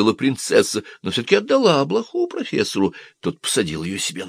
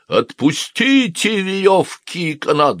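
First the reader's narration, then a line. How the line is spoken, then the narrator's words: Shouting. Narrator (Russian): закричал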